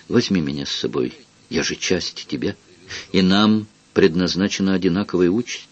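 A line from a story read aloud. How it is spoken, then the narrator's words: Quiet but firm request. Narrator (Russian): Его сестричка вполголоса, но решительно попросила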